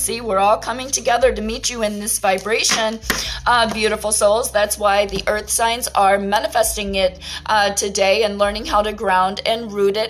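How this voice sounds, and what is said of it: Talking very fast. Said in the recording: “I'm talking so fast ... why am I talking so damn fast today?”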